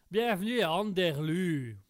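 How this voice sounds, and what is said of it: Put-on Québécois accent, not great. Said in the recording (French): “je vais même le faire avec l'accent, avec l'accent de la région... C'était un peu un accent euh, québécois. Euh, c'est peut-être pas non plus le meilleur des accents.”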